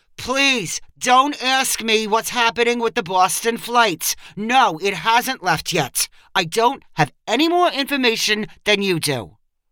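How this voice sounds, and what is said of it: Frustrated gate agent voice. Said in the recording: “in a frustrated voice”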